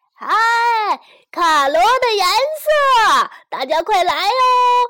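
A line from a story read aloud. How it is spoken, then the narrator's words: Loud far-carrying call. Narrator (Chinese): 卡罗就大声地吆喝起来，声音顺风传到很远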